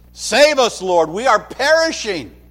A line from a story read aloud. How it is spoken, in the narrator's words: shouting probably over the wind